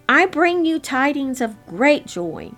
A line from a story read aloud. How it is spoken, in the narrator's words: shouted